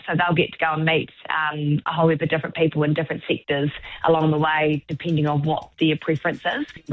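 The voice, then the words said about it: Southland New Zealand accent. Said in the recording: “Love that Southland accent, by the way. You keep it up.”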